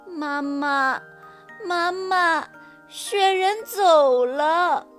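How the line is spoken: Crying child. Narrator (Chinese): 小兔子 哭着对妈妈说

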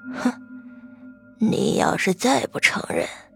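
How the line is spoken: Sinister laugh, whisper. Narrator (Chinese): 马旭生阴邪一笑，小声说道

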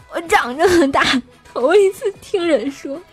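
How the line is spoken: Crying while speaking. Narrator (Chinese): 大师兄就一边哭泣一边跟我说

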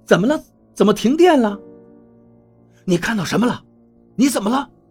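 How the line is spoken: Shout. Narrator (Chinese): 我喊道

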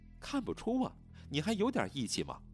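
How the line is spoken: Laughing. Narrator (Chinese): 徐清霜笑道

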